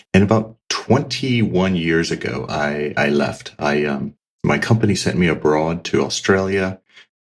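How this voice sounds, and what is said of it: American accent. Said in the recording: “as you may hear from the accent, I grew up in the States. I am an American.”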